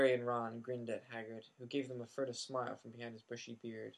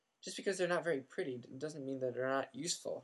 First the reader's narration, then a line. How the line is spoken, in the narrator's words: Hermione snapped